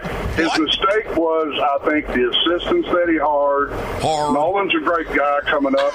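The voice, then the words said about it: Local South End regional accent. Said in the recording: “that's a South End dude if I ever heard one. I know that accent.”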